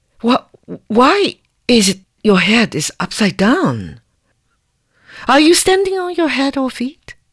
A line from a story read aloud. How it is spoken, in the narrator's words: Her Majesty exclaimed